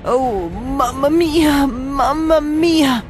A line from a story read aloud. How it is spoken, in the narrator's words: He moaned